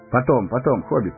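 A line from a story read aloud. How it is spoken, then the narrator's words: Hurried. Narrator (Russian): торопливо сказал Арагорн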